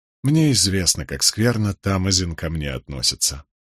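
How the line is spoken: Sad quiet remark. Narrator (Russian): печально проронил

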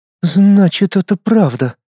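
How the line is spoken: Heavy sigh. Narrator (Russian): тяжело выдохнула Луиза

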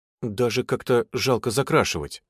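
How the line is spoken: Hesitant, after a cough. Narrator (Russian): кашлянув, сказала Надя неуверенно

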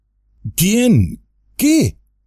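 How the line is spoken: Exclaimed while running. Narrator (Spanish): exclamó Frodo, corriendo al otro lado del árbol

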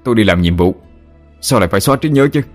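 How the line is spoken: Furious, loud. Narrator (Vietnamese): tức giận đến mặt đỏ tía tai, trần trừng mà lớn tiếng

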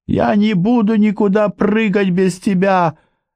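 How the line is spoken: Shrieking. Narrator (Russian): завизжала Мэй

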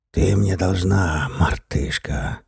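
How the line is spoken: Hissed into ear. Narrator (Russian): прошипел он ей в ухо

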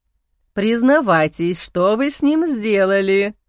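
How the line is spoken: Laughing. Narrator (Russian): посмеялась

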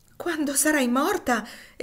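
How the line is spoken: Passionate exclamation. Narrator (Italian): esclamò Sinclair appassionatamente

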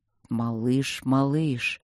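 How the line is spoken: Anxious, drawn-out call. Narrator (Russian): тревожно протянул он

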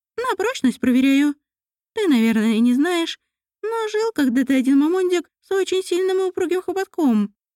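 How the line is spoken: Nasal voice. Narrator (Russian): прогнусавил Жмунь

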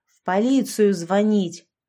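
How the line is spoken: Bark. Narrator (Russian): рявкнула я

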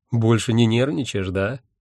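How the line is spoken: Condescending snort. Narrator (Russian): снисходительно хмыкнул он

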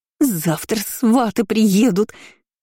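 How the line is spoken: Hissing. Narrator (Russian): шипела

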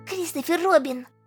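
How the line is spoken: Whispered shout. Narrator (Russian): крикнул шепотом

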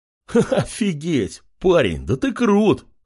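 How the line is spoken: Laughing. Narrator (Russian): хохотал солдат

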